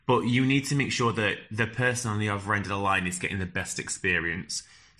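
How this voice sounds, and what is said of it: Strong northern English accent. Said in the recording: “You've probably guessed that I've got a very strong northern accent.”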